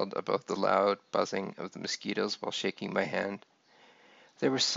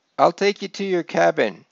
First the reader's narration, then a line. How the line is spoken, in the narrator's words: shouted